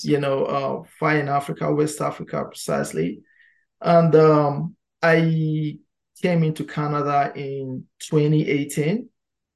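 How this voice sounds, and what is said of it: Slight non-Canadian foreign accent. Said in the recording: “I heard a little bit of an accent there. It sounds like maybe Canada is not where you were born.”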